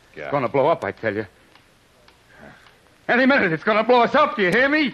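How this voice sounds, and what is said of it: Panicked yelling. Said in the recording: “Stop yelling”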